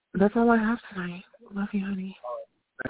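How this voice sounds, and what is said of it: Sultry, sexy late-night voice. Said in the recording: “That sound a little sexy or whatever you want to call it. That the caller before me had their midnight ... sexy voice on.”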